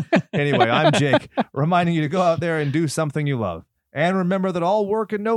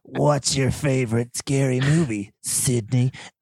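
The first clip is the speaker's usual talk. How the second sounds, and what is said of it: Ghostface horror character voice. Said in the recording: “I'm trying to do the ghost face voice.”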